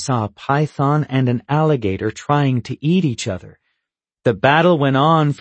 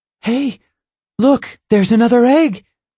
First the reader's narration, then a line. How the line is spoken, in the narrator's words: Mom exclaimed